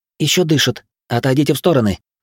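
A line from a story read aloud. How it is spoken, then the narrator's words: Snapping young woman. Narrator (Russian): огрызнулась девушка, склонившись над пострадавшей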